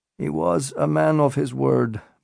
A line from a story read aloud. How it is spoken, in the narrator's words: Barak sighed